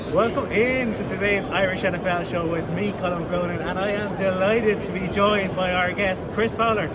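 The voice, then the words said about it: Irish accent. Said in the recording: “Just hearing your accent makes me smile, man. I love Ireland.”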